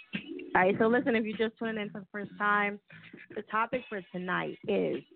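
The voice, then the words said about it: Worn-out, failing voice. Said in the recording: “My voice is like about to die on me.”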